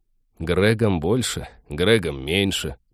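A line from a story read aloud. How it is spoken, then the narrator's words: Grumbling. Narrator (Russian): проворчал Тед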